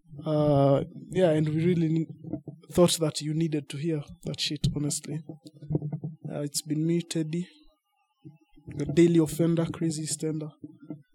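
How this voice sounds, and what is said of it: British-sounding accent. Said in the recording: “my accent, my British accent, is fake as fuck”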